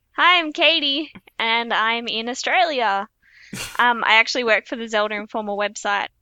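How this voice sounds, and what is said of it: Cute Australian accent. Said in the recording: “You also got a mad cute accent. ... She says coast really cool.”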